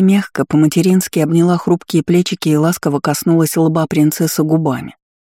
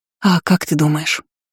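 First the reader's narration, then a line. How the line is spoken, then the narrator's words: Breathless near whisper. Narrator (Russian): Затаив дыхание, почти шепотом спросила невеста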